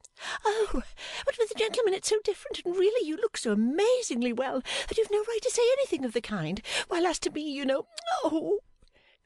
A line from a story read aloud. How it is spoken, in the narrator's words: cried Flora with a little scream